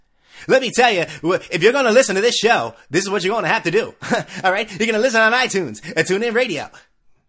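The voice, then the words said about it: Fake radio announcer voice. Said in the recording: “You like my fake radio voice? Like the Bomani Jones voice? ... Imagine talking like that because he doesn't talk like that.”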